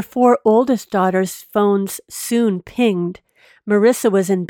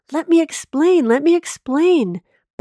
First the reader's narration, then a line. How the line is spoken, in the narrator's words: Bob kept shouting